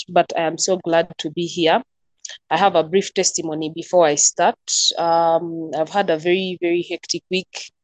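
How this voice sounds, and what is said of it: Congested, nasal voice. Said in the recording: “I have a cold, so in case I start coughing or you're hearing me speaking through my nose”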